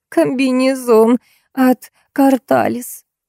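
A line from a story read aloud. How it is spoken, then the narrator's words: Friend pausing her squeal. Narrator (Russian): перестала на секунду визжать подруга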